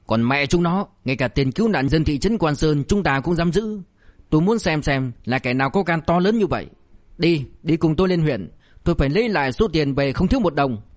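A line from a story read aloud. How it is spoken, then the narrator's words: Furious. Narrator (Vietnamese): Liêu Kinh Vũ nổi giận đùng đùng, giọng tức giận nói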